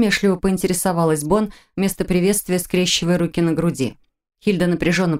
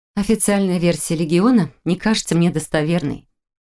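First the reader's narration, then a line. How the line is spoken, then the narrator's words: Calm explanation. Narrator (Russian): спокойно объяснила она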